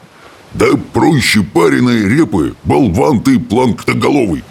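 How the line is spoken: Smug booming. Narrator (Russian): прогудел брехун, весьма довольный собой

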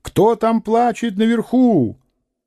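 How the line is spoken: Shout at full strength. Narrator (Russian): насколько было сил, крикнул

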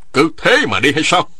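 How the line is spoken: Loud question. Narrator (Vietnamese): Người họ Nghe lớn tiếng hỏi

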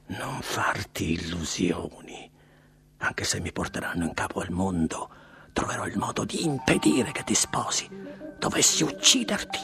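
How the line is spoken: Whispered in ear. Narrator (Italian): le sussurrò all'orecchio

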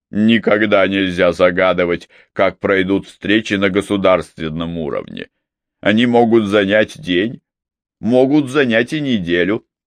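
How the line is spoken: Amused snort. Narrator (Russian): Вервен весело фыркнул собственной шутке

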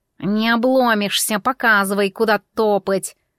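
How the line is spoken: Grumble. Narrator (Russian): проворчал Миун

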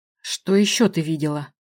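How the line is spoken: Snake-like hiss. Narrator (Russian): В голосе почудилось змеиное шипение

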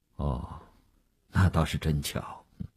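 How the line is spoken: Flat, indifferent. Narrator (Chinese): 吴长天淡淡地说

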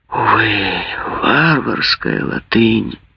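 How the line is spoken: Dejected sigh. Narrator (Russian): вздохнул удрученный Грингуар

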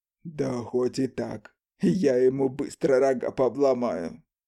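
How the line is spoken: Chuckling. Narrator (Russian): хохотнул

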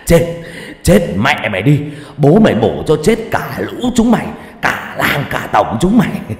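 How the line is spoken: Screaming with mad laughter. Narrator (Vietnamese): cười điên dại mà gào lên

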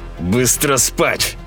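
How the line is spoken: Father, through clenched teeth. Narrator (Russian): сказал отец сквозь зубы

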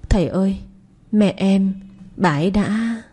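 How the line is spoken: Child's choked sobbing. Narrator (Vietnamese): thằng nhỏ mếu máo, nghẹn ngào mở lời

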